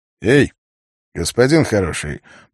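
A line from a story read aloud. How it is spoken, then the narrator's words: Deceptively friendly tone. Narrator (Russian): проговорил Савва обманчиво дружелюбным тоном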